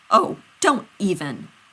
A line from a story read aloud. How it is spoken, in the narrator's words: Rodney snaps back